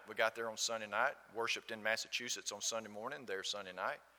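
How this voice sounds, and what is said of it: Southern US accent. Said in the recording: “This gentleman heard my accent. ... It's called Southern.”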